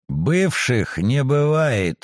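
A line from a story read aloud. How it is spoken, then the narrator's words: Gloomy declaration. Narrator (Russian): мрачно заявил Акакий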